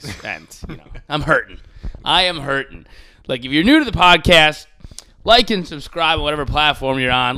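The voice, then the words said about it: Hoarse, worn-out voice. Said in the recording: “my voice is gone ... I could hear it a little bit ... my voice is gone”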